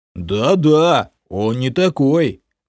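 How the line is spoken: Booming guard. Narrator (Russian): Мне в поддержку прогудел стражник

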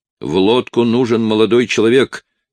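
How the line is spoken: Shout. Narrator (Russian): крикнул помощник капитана

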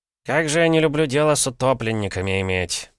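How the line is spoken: Grumbling investigator. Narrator (Russian): проворчал прибывший на место обнаружения трупа следователь Дубровской городской управы

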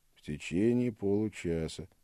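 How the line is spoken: Quiet, bored voice. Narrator (Russian): сказал он тихим, скучным голосом

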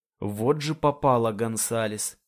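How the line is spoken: Mournful lament. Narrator (Russian): сокрушается траурным тоном

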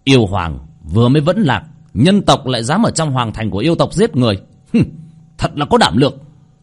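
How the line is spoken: Angry loud voice. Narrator (Vietnamese): Bạch Thu Nhiên tức giận lớn tiếng

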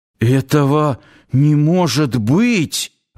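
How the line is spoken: Suddenly hoarse wheeze. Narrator (Russian): внезапно охрипнув, просипел Нанос

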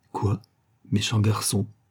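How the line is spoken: Stammered. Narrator (French): balbutia-t-elle

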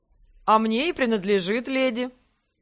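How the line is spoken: Good-natured laugh. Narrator (Russian): Добродушно рассмеялся Леграсс

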